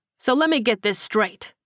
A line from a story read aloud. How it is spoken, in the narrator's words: Simon said loudly